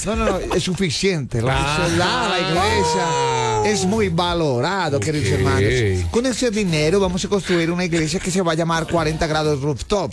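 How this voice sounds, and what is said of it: Imitated pastor's preaching voice. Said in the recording (Spanish): “¿Para hacer la voz del pastor?”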